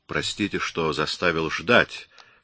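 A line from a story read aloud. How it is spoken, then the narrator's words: Plain. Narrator (Russian): сказал он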